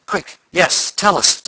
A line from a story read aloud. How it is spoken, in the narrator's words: demanded Tom eagerly